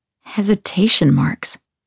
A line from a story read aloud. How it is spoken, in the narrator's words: I murmur